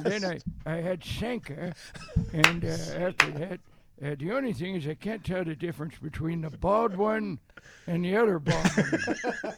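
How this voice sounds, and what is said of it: Old man voice. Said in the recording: “Old man voice kills.”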